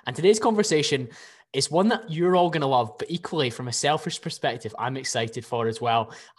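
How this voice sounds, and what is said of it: Scottish accent. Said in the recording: “your beautiful Scottish accent”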